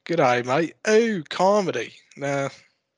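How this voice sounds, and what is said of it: Attempted Australian accent. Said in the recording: “that's not a Melbourne accent ... a little closer, I guess”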